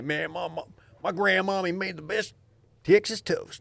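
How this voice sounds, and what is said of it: Put-on Texan accent. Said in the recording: “That's my Texas guy accent.”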